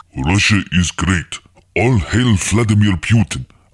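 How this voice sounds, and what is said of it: Silly put-on Russian accent. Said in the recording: “I, Chris Hewitt, am very silly man with very silly accent.”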